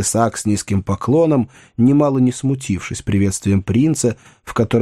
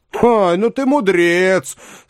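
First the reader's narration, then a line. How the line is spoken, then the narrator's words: Loud laughter. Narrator (Russian): сказал принц с громким хохотом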